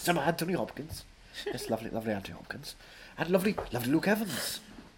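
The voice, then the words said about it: Welsh accent. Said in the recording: “cannot hide his Welsh accent. And neither can I.”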